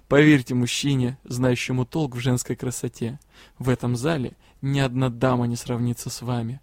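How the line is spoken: Soft laugh, smiling. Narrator (Russian): лорд Тьер негромко рассмеялся и, улыбнувшись, сказал

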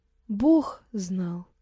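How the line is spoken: Quiet, serious. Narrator (Russian): тихо говорит он

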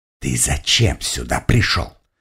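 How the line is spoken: Hiss. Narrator (Russian): прошипела она

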